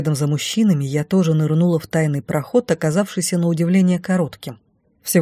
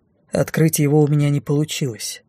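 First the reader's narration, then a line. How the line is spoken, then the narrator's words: Dry. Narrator (Russian): сухо сообщил Дефос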